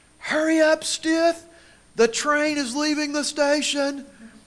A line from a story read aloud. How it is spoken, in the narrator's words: Coach Randy Brewer was screaming at us